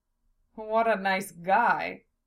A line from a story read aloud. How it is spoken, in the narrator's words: Miwan chuckled